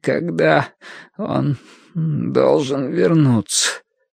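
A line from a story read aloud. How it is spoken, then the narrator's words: Strained, forced out. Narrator (Russian): выдавил Бадри через силу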